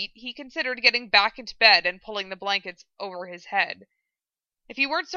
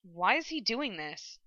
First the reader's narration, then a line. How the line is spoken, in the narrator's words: asked quietly